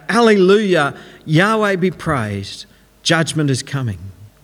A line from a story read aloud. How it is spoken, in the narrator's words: shout out